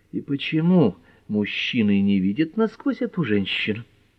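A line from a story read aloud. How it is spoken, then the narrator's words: Quiet question. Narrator (Russian): Розмари Пэт тихонько спросила Эллири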